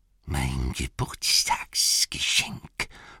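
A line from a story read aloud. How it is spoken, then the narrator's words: Whispering to himself. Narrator (German): flüsterte er im Selbstgespräch, wie schon so oft in diesen endlosen dunklen Jahren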